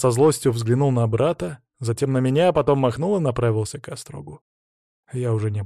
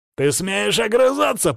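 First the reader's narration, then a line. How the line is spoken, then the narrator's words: Growling. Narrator (Russian): прорычал Владислав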